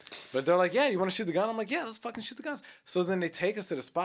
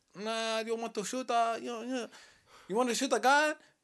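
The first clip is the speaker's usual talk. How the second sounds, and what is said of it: Bad put-on Asian accent. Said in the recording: “That's my Asian accent. It was really bad.”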